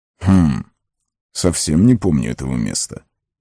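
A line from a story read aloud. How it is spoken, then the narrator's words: Muttering. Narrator (Russian): пробормотал Гэндальф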